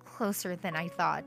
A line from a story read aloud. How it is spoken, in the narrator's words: I muttered to myself